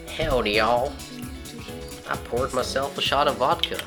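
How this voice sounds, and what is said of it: Stereotypical American Western drawl. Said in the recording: “If I tried to do an American accent, it'd be like a Western drawl, it'd be, you know, it'd be so stereotypically awful.”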